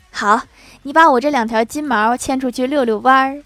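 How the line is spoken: Laughing. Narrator (Chinese): 领导笑着说

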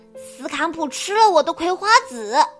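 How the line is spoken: Shouting. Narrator (Chinese): 斯库里喊道

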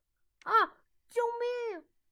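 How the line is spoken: Loud alarmed cry. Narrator (Chinese): 亨利连忙大声惊呼道

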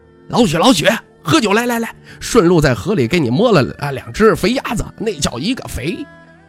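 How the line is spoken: Booming shout. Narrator (Chinese): 有个大嗓门喊着

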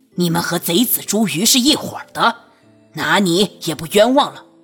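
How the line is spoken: Angry roar. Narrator (Chinese): 那个胖子怒吼一声

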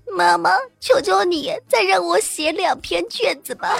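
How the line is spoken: Crying, pleading. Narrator (Chinese): 哭着求我对我说

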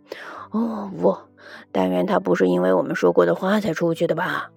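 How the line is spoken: Mumbling. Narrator (Chinese): 威达嘟囔着

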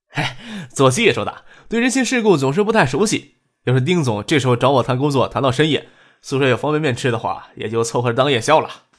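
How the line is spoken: Self-mocking chuckle. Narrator (Chinese): 丁春健嘿然一笑，自嘲的说道

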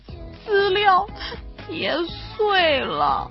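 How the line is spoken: Choked sobbing girl. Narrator (Chinese): 小姑娘哽咽的说

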